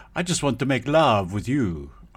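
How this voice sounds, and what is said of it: Put-on French accent. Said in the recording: “I have to do that in a French accent”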